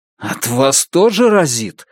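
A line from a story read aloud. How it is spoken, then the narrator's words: Suppressed growl. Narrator (Russian): сказал Лун, подавляя желание зарычать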